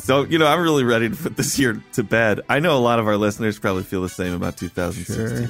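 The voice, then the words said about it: Talking through barely opened mouth. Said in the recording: “I can only open my mouth a little bit, kind of like, you know, that little slot that C-3PO has for a mouth. That's kind of what I'm talking out of right now. So if I sound a little weird,”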